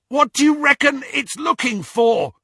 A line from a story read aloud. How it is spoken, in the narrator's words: Ron yelled